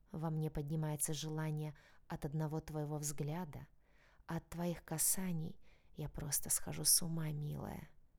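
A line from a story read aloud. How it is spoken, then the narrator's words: Passionate whisper. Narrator (Russian): страстно прошептал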